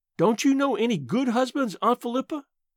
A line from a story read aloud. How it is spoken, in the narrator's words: I asked desperately